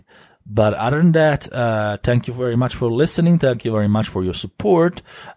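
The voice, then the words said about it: Coarse, hoarse voice. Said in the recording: “sorry for my voice being a little coarse this week because I'm sick”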